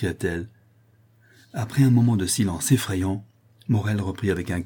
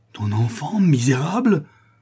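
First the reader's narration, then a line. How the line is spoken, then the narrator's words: Furious cursing outcry. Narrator (French): s'écria Morel ... cette imprécation terrible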